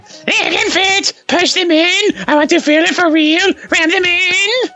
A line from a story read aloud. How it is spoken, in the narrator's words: Her moans became more insistent until she was screaming